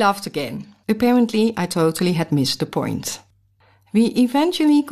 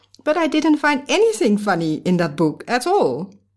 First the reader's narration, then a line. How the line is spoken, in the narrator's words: I respond with surprise and laughter